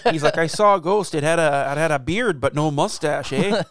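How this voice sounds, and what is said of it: Put-on Canadian accent. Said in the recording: “Now I'm just thinking of like a Canadian man being interviewed about the Amish ghost”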